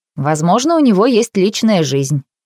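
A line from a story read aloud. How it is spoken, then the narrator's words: Snorting. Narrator (Russian): Дункан фыркнул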